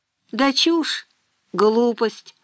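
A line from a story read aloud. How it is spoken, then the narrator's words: Sighing. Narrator (Russian): вздохнул Дима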